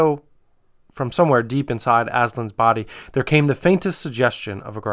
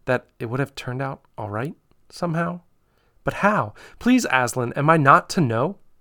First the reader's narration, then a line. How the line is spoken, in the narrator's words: said Lucy rather faintly